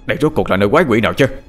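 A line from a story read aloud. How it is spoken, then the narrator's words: Astonished shout. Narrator (Vietnamese): bác Hai ... hét lên kinh ngạc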